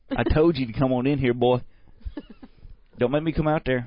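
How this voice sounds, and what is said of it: Put-on Southern US accent. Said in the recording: “you don't have a southern accent, but he likes it when you get all southerny”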